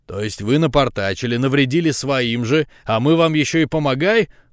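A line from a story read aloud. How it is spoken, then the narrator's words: Growled. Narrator (Russian): рыкнул Феликс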